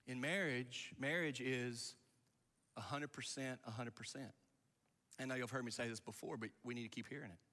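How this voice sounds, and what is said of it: Slightly raspy voice. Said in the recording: “is my voice getting a little raspy?”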